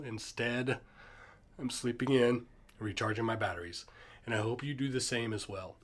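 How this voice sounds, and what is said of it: Sick, ill-sounding voice. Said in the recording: “I don't know if you could tell from my voice, but I am very ill.”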